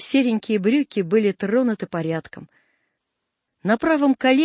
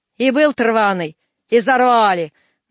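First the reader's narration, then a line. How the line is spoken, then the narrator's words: Rough. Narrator (Russian): грубо отозвался Степан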